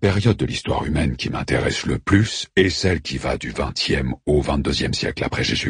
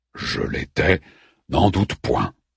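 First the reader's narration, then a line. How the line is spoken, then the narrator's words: Growled. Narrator (French): gronda Orphée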